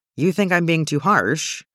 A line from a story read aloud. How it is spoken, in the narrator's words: In a gentler tone, he asks